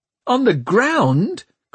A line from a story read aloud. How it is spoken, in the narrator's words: cried Tom